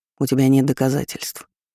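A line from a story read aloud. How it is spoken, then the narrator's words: Gloomy reply. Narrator (Russian): отозвался он мрачно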